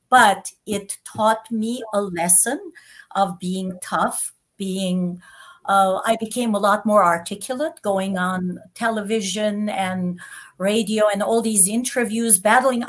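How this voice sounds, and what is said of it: Foreign accent. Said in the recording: “I have an accent. I know 7-8 languages that my accent will never go away.”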